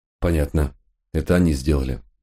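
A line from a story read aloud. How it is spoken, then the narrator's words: Sigh. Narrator (Russian): вздохнул я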